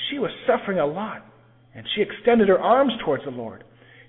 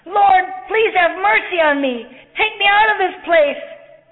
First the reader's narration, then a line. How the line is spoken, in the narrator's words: screamed